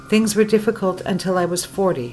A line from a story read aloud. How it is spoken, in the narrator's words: Ashbury says